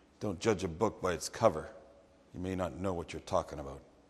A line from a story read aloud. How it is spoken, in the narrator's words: mumbled